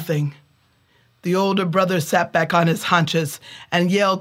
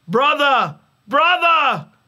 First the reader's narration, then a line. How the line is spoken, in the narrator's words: He yelled down the pit